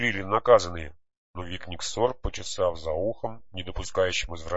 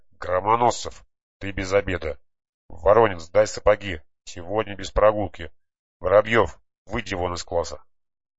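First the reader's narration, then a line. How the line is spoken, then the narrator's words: Calm indifferent muttering. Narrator (Russian): Викниксор спокойно, не повышая голоса и даже как-то безразлично, процедил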